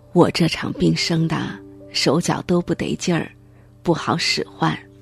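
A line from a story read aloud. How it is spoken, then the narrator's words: Sighing lament. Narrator (Chinese): 他又慨叹道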